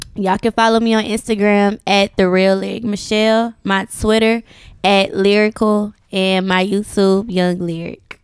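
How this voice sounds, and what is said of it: Southern Houston Texas accent. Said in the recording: “That slang. ... I love that down the Houston accent.”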